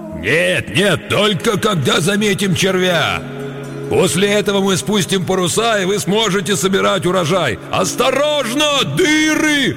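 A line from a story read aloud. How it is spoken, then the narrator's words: Deafening yell. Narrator (Russian): Оглушительно завопил он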